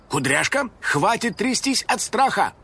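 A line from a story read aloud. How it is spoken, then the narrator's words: Brisk command. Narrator (Russian): бодро скомандовал Финик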